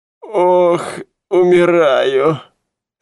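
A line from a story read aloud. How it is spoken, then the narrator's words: Groaning. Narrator (Russian): стонал Медрас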